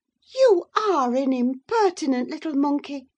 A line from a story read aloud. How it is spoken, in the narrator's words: exclaimed Mrs